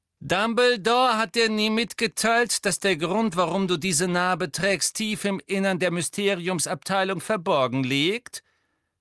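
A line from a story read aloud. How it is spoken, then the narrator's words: Mocking. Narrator (German): höhnte Malfoy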